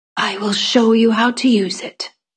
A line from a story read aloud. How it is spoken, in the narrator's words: whispered back